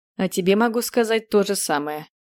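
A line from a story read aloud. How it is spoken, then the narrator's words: Snorted. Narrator (Russian): хмыкнул герцог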